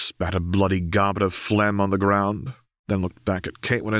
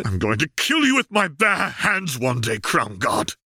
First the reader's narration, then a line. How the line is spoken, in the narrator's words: Caitlin snarled